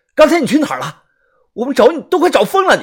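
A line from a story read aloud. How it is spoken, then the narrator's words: Excited loud yell. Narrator (Chinese): 很是激动啊，大 大声的吼他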